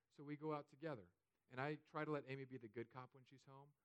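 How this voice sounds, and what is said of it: Usual voice. Nothing is said of it.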